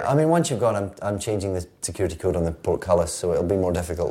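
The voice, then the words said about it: Scottish accent. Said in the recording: “your Scottish accent, which will be much more charming than my American accent”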